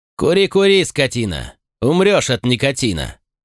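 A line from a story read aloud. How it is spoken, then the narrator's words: Loud, filling the hall. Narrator (Russian): Тимохин громко на весь зал пожелал ему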